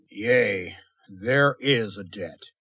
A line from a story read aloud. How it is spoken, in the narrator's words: Nomura growled implacably